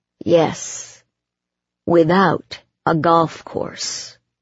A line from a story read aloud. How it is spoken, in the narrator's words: Jake said dryly